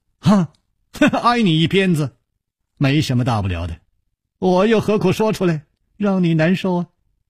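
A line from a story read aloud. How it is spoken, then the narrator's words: Laughing. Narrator (Chinese): 楚留香笑着说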